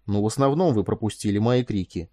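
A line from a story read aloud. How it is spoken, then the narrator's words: Grim. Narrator (Russian): мрачно сказал Этан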